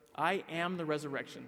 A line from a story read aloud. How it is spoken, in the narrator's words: says